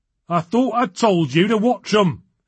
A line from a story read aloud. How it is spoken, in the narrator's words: he snapped